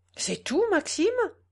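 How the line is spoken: Exclaimed. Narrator (French): s'écria la palférine

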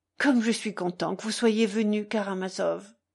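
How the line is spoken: Exclaiming. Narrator (French): s'écria-t-il

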